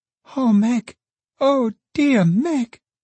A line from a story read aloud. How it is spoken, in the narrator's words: The child, in a burst of sobbing, said